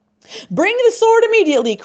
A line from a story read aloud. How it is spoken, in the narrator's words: cried the Sultan